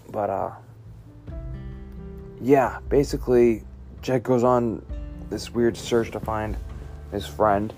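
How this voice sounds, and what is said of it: Scratchy voice. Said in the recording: “I'm sorry for how my voice is sounding. I guess it's a little scratchy today”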